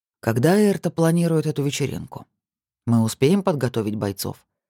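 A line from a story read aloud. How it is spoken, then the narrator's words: Plain. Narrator (Russian): спросил Руслан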